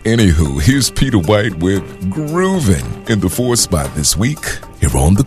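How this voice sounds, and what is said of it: Usual voice. Nothing is said of it.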